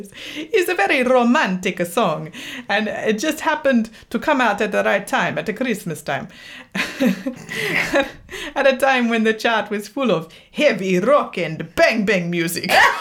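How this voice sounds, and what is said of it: Bad put-on Italian accent. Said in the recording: “I'm going to read it in a bad Italian accent ... That was Italian by way of like Transylvania”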